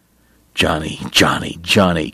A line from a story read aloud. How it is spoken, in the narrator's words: Kate muttered